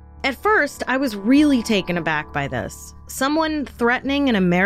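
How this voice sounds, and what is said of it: Usual voice. Nothing is said of it.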